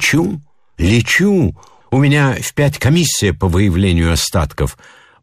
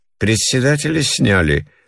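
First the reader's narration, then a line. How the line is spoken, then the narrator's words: Lazy question. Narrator (Russian): лениво спрашивала жена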